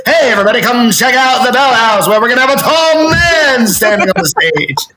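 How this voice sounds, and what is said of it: Old-timey transatlantic announcer accent. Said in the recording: “like a transatlantic accent. ... It's like comedy from the 1930s.”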